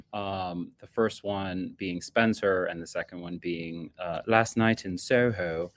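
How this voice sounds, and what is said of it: Exaggerated put-on British accent. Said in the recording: “this horrid accent that I'm doing ... I apologize to all the people who talk like this normally ... speaking in such a ridiculous accent ... Two very, very British movies”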